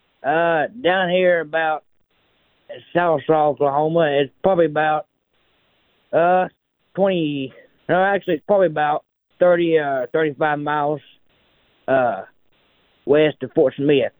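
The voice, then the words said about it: Oklahoma accent. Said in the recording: “I love your accent, and I love that you're from Oklahoma. ... he just sounds like a good Oklahoma fella.”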